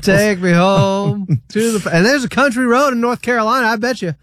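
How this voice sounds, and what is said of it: Put-on accent. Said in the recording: “You've got the accent going too.”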